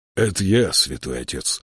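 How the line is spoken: Whispering. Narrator (Russian): прошептал он

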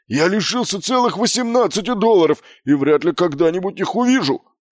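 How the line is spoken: Barking. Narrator (Russian): рявкнул он

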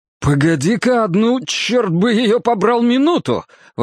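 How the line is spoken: Hysterical high-pitched exclamation. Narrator (Russian): воскликнул Кин истерически высоким голосом

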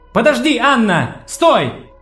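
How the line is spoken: Shouting. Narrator (Russian): крикнула Джессика

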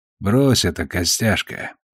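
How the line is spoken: Surprisingly soft. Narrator (Russian): на удивление мягко проговорил он

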